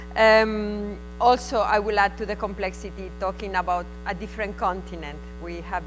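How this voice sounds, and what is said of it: Spanish accent. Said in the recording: “with my Spanish accent”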